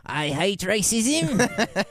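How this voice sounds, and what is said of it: Imitates another person's voice. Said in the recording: “I can do a good Nanette, though ... That's a pretty good one, right?”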